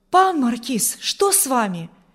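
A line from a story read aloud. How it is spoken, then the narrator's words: Frightened exclamation. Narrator (Russian): воскликнул Урзин испуганно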